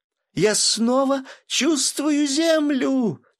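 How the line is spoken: Deafening shout. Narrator (Russian): чуть не оглушив, закричала Мила

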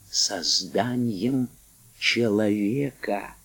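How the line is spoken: Whisper. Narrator (Russian): Вагнер шепотом

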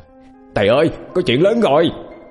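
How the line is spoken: Shout close to ear. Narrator (Vietnamese): An hét lên bên tai

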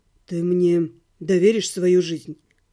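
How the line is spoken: Serious voice. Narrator (Russian): сказал некромант серьезным голосом

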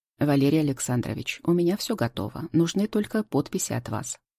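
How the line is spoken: Calm. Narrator (Russian): спокойно говорит Антон

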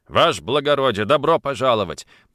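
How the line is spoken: Deep bass voice. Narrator (Russian): пробасил он

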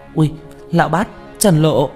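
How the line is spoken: Excited cry. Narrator (Vietnamese): Tranh Tử hưng phấn kêu lên

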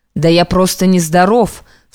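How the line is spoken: Shouting at himself, shaken. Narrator (Russian): вслух прикрикнул на себя Юрий, стараясь освободиться из-под нежданного дневного кошмара

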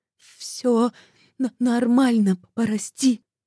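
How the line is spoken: Stammering whisper. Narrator (Russian): шепчу, заикаясь

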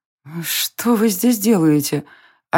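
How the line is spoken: Stunned hoarse rasp. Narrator (Russian): ошарашенно прохрипела Варя

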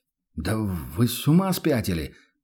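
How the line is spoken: Dumbfounded mumble. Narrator (Russian): пробормотал трактирщик оторопело

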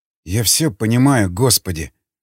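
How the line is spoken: Sigh. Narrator (Russian): вздохнул

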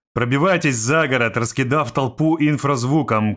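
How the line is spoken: Shouted command. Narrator (Russian): крикнул командир

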